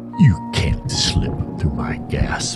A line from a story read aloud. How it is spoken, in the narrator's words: murmured